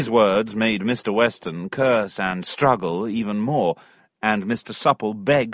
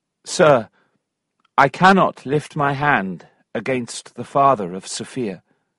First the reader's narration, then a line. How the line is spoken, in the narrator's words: Very calmly, Tom said